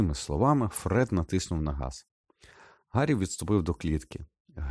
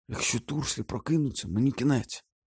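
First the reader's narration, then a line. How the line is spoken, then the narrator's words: Whispered. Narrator (Ukrainian): прошепотів Гаррі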